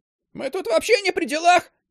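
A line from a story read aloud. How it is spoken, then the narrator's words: High-pitched yell. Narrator (Russian): Завопил тонким голосом Кисляк, вертлявый парень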